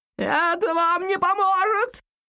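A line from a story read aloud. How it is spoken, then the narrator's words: Shouting. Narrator (Russian): крикнул маг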